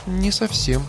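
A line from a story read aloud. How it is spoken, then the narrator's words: Thoughtful reply. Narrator (Russian): все так же задумчиво ответила Дина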